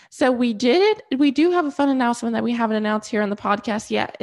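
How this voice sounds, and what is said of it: Stuffy, congested voice. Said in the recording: “my nose is stuffy and my voice sounds weird because I have a cold ... I do sound stuffy”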